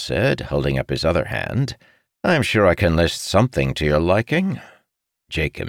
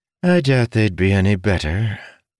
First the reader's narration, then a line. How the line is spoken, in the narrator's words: Felinia sighed